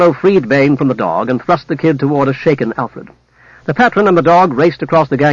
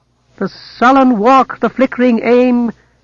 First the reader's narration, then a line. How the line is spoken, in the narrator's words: Bane trilled the words, his voice loud and jarring